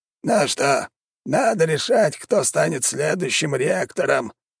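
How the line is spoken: Creaky old voice. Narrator (Russian): проскрипел старый маг

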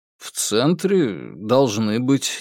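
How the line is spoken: Uncertain drawl. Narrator (Russian): неуверенно протянул Герберт

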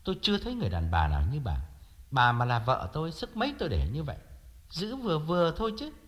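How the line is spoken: Sighing, aggrieved. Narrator (Vietnamese): Thiệu thở dài và uất ức nói

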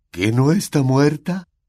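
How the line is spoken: Asked sobbing. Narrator (Spanish): preguntó Filch entre sollozos

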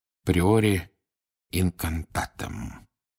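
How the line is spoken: Barely audible mutter. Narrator (Russian): пробормотал он едва слышно

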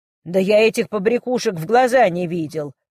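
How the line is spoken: Man growling. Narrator (Russian): прорычал мужчина

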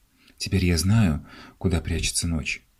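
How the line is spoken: Knowing whisper. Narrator (Russian): он прошептал понимающе

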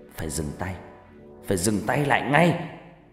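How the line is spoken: Growling. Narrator (Vietnamese): Bà Regina gầm gừ nói

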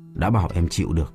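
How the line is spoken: Wry interrupting. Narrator (Vietnamese): Bính cười nhạt ngắt lời

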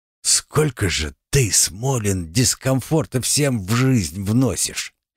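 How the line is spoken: Grumbling. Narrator (Russian): буркнул мой собеседник

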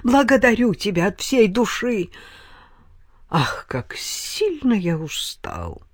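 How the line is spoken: Languid weary moan. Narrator (Russian): томным голосом простонал менестрель

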